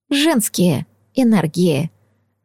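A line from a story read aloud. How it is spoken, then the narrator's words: Whispered reply. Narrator (Russian): в ответ прошептала Этайн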